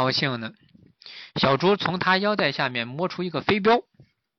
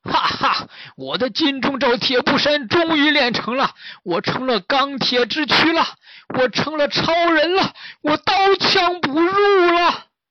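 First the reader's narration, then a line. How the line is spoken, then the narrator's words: Laughing loudly. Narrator (Chinese): 追影大师大笑起来，说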